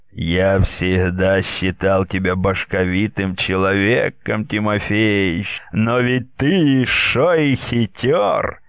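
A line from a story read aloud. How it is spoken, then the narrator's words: Quiet laughter. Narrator (Russian): Ермак негромко смеялся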